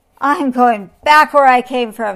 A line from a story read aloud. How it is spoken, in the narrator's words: he roared